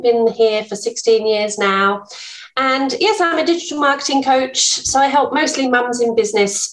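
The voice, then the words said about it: English accent. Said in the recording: “I'm English, as you can probably tell from my accent”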